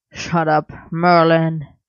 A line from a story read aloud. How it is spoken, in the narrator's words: Arthur growled